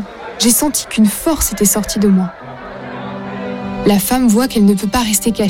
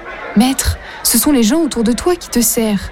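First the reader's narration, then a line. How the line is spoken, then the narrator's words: Plain. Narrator (French): Jésus dit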